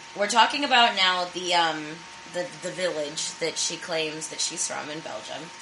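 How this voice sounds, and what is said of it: Hoarse voice from laryngitis. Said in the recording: “my voice sounds weird ... If my laugh is weird ... I have laryngitis, horrendously bad ... I sound like shit. Like I'm gargling fucking glass”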